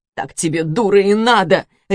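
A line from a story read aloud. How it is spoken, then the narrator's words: Harsh self-directed bark. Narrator (Russian): рявкнула на саму себя Руслана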